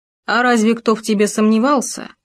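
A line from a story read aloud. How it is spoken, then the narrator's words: Said in deep bass. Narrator (Russian): пробасил он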